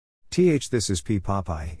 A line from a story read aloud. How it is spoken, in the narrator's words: he said